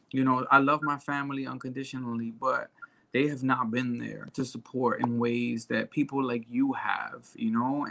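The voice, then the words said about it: Emotional, close to tears. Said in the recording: “I'm getting emotional now ... you got me crying”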